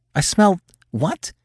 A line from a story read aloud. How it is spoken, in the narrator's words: Her voice was muffled against his chest, but he could hear the tremble that edged it